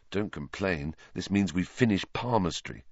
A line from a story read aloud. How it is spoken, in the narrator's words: Harry muttered back